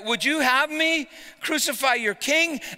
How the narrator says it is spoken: Pilate cried out

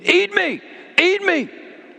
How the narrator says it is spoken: screaming

